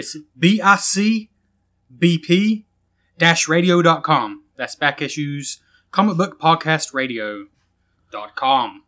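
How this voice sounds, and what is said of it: Announcer-style radio voice. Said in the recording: “That's a great radio voice you just used for that.”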